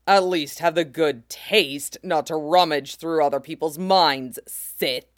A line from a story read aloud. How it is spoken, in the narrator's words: he growls